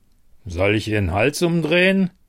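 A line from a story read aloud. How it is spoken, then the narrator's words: Deep male growl. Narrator (German): knurrte eine tiefe Männerstimme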